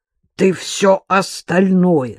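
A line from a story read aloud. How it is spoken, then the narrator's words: Old man's frightening voice. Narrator (Russian): страшным голосом спросил ее дед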